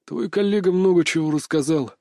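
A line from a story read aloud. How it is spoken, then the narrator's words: Sighing. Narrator (Russian): вздохнул начальник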